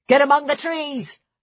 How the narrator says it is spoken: The tall man barked the order

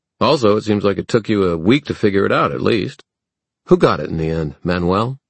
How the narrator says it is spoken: flushed angrily

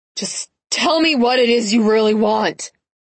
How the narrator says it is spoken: snarled Lance

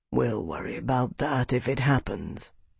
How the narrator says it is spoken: he said quietly

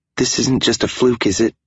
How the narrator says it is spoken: She sputtered

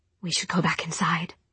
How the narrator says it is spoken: she said in a half-whisper

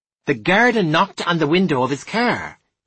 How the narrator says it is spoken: said, raising his voice so there could be no confusion

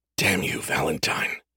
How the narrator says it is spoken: he whispered

